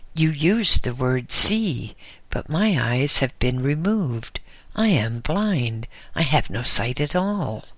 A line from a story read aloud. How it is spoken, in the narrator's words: I exclaimed